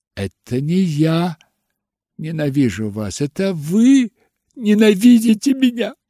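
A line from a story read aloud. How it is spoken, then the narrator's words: Agitated sobbing. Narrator (Russian): рыдала Кэти, больше не скрывая своего волнения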